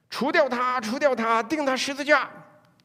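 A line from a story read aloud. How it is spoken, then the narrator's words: Crowd shouting again. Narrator (Chinese): 他们第二次叫喊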